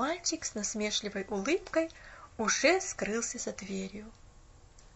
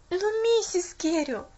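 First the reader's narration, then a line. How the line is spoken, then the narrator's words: Desperate exclamation. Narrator (Russian): наконец воскликнула Поллианна в отчаянии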